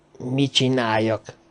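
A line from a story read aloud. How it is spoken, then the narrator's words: Low grumbling man. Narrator (Hungarian): dörmögte az angol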